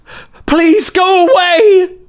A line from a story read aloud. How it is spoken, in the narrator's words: She screamed, but the tone of her voice wasn't one of sorrow